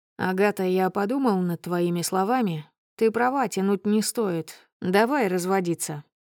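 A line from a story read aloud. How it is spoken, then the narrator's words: Matter-of-fact tone. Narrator (Russian): сообщает мне будничным тоном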